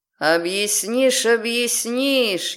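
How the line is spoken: Snide booming otherworldly voice. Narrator (Russian): ехидно громыхнул голос из потустороннего мира

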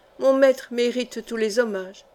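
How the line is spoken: Very cold. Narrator (French): dit Saint-Maugon très froidement

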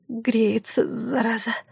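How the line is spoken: Through gritted teeth. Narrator (Russian): сквозь зубы произнесла она

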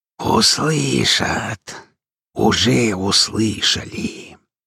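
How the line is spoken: Hissing voice filling hall. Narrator (Russian): Внезапно наполнился зал каким-то шипящим голосом

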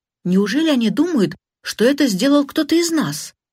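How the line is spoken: Exclaiming. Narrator (Russian): воскликнула Джина

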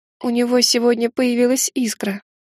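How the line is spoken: Almost plaintive. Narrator (Russian): сказала я почти жалобно

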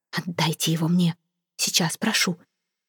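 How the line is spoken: Quiet, passionate plea. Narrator (Russian): мадам де Кормье произнесла негромко, но страстно

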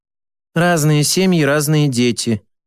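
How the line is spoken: Sighing. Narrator (Russian): вздохнула Вершбицкая

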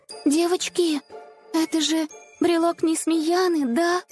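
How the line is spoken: Uncertain question. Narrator (Russian): Неуверенно спросила Снежка

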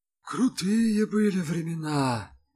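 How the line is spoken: Sigh. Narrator (Russian): вздохнул прислушавшийся к разговору Малинин

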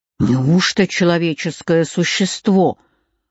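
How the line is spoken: Angry. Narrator (Russian): произнес он сердито

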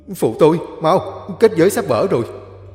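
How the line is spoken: Hurried urgent shout. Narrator (Vietnamese): Chú Út vội la lên

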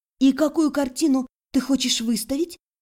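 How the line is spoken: Quiet whisper. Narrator (Russian): Так же тихо шепнула в ответ

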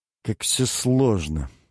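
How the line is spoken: Sigh. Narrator (Russian): вздохнул Фредерик

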